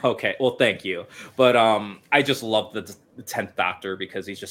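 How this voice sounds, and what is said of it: Usual voice. Nothing is said of it.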